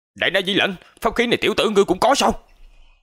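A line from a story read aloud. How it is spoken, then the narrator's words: Angry loud shout, old man. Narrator (Vietnamese): Lão giả … giận dữ hét lớn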